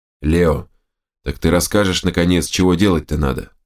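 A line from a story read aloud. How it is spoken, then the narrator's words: Grumbling. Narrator (Russian): проворчал Берс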